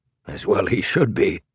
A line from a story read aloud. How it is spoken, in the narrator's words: muttered King